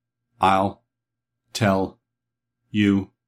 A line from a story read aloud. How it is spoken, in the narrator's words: answered Tick-Tock in his monotonous voice, all the sounds of his words being on one level